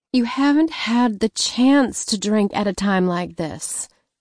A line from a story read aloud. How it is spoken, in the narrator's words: she sighed